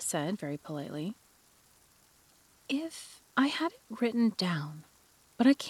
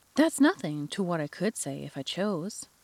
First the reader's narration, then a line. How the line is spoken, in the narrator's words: the Duchess replied in a pleased tone